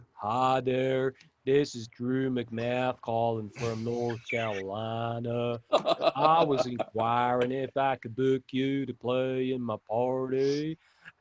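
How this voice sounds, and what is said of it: Put-on Texan hillbilly accent. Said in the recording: “that went a bit Texas-y, hillbilly there ... That's the funny accent vibe”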